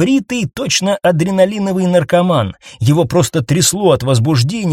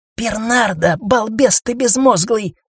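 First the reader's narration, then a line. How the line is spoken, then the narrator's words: Snake hissing. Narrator (Russian): зашипела змея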